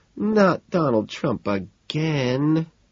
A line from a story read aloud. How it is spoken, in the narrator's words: Evelyn moans